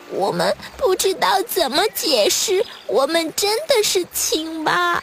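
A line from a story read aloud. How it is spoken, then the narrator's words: Tearful, very quiet children. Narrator (Chinese): 小蝌蚪们哭哭啼啼地 很小声地说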